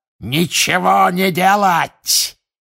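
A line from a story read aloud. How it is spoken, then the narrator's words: Shouted. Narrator (Russian): крикнул Волан-де-Морт своим приспешникам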